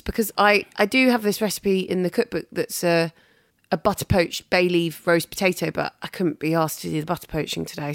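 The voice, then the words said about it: Raspy, hoarse, cold-affected voice. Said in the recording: “Oh my God, I can't speak. ... my raspy tones. Lost my voice ... Got a cold ... lost my voice on the flight home”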